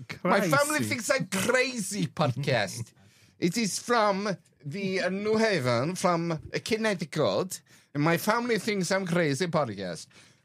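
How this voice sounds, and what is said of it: Put-on Russian accent. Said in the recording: “Why are we doing a Russian accent?”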